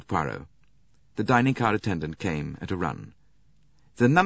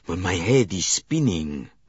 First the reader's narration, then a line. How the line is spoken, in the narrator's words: groaned Monsieur Bouc